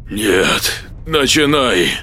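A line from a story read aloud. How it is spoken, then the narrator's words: Hoarse strained forcing out. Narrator (Russian): хрипя выдавил Николай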